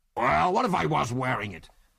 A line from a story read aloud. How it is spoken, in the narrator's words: He snarled belligerently